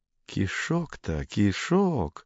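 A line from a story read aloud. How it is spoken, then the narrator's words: Muttered. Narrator (Russian): пробормотал он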